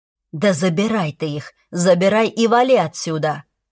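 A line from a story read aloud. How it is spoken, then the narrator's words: Growling. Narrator (Russian): прорычал дружок Лекси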